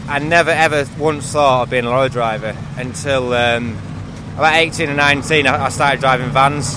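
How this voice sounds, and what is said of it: Slight North Yorkshire accent. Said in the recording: “a slight Yorkshire accent there, about South Yorkshire? ... I'm North Yorkshire.”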